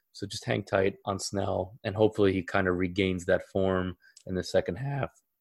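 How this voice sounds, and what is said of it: Tired, cracking voice. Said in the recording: “my voice is cracking. I'm very tired.”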